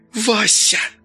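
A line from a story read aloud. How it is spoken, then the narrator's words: Hissed angrily. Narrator (Russian): злобно прошипела Алена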